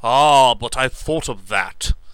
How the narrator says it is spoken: cried Lance's exultation returning

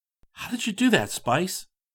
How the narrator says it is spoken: Chris gasped

